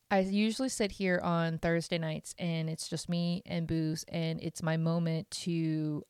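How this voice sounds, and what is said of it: Choked-up, emotional voice. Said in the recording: “getting choked up, like not like crying, like legit choke.”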